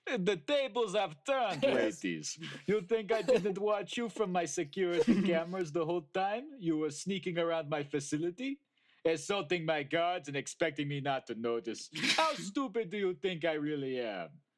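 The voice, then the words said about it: Put-on Russian accent. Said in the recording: “Russian accent.”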